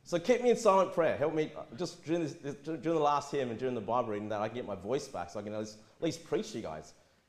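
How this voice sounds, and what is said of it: Hoarse, failing voice. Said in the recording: “I'm losing my voice. ... It's horrible.”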